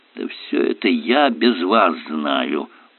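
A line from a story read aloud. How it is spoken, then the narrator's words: Grumbling. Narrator (Russian): проворчал Воин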